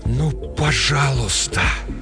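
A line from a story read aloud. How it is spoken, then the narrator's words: Quiet whisper. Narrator (Russian): тихий шепот Фила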